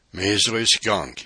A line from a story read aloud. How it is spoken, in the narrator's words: he panted